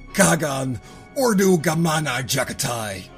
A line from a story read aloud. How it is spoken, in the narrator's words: They roared, drowning out the screams of the Empyrean